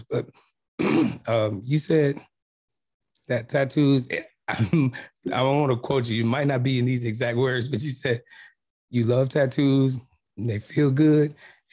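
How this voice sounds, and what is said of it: Slightly hoarse voice. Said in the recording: “excuse my voice, I know it's a little hoarse”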